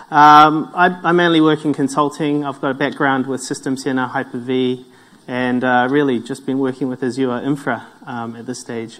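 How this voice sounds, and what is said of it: New Zealand accent. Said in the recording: “My accent comes from New Zealand”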